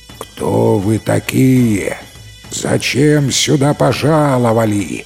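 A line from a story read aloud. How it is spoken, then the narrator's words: Distant roaring giant. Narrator (Russian): проревел великан издалека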